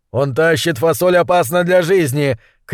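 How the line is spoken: Shout. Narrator (Russian): крикнул Гуталин

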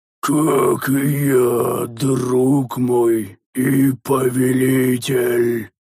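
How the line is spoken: Hoarse reply. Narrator (Russian): хрипло отозвался незнакомец

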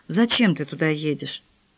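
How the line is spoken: Quiet question. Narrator (Russian): тихо спросила

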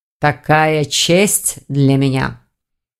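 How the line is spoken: Suppressed growl. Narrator (Russian): Саргон постарался не рычать

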